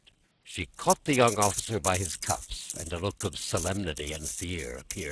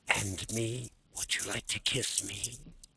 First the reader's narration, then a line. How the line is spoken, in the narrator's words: she whispered, almost inaudibly, smiling and almost crying from excitement